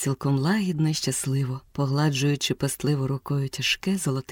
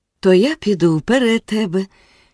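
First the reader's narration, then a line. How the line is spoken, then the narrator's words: Cheerful reply. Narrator (Ukrainian): відповів він весело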